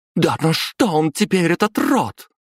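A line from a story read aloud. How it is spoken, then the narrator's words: Woman exclaiming. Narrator (Russian): воскликнула вторая жена главы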